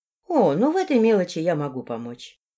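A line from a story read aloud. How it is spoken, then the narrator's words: Almost tender, smiling. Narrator (Russian): почти ласково улыбнулась Златоглазая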